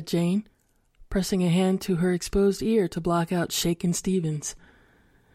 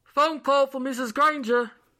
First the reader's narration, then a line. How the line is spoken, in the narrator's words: the landlord shouted